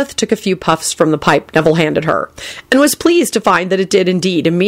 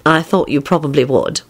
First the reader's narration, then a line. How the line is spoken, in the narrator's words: Elizabeth replied dryly